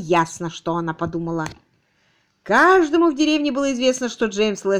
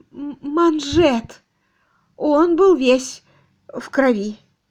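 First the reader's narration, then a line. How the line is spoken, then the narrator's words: Trembling voice. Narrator (Russian): Дрожащим голосом миссис Мэйхью сказала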